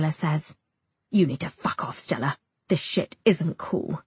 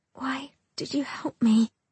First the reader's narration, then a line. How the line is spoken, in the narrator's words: I whisper